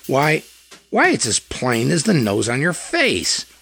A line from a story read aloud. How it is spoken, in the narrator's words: Ward sputtered